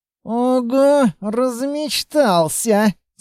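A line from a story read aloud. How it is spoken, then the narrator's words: Muttered through teeth. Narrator (Russian): сквозь зубы пробормотала Анна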